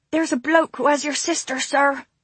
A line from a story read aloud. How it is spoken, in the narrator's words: he sputtered a little out of breath